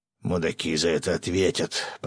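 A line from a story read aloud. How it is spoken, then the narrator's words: Fisherman's growl. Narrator (Russian): прорычал рыбак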